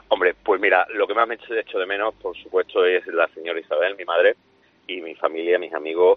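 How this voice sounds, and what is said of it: Spanish speaker with Extremaduran accent. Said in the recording (Spanish): “Te sale el acento, ¿eh? Te sale el acento.”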